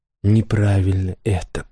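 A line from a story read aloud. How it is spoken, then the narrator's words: Whisper. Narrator (Russian): прошептал он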